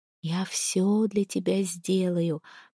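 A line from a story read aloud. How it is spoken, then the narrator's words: Intimate whisper. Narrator (Russian): прошептала я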